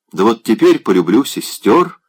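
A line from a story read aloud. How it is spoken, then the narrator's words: Cheerful. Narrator (Russian): весело обратился он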